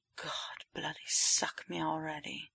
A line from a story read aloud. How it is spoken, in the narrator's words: Potter groans out